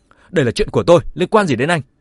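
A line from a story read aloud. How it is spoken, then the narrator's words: Angry. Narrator (Vietnamese): Vương Ngạn Quân tức giận nói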